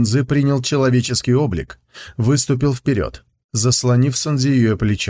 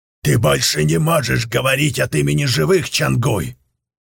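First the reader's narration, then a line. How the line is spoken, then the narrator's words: Hissed. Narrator (Russian): прошипел он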